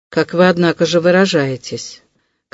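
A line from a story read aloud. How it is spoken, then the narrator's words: Gloomy, very serious. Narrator (Russian): как-то мрачно заметил Вельчининов, ставший вдруг опять ужасно серьезным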